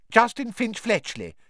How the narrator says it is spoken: he said brightly

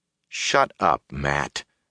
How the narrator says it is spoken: Perrin said calmly

